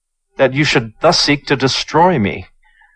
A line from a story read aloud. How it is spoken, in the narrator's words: cried Chu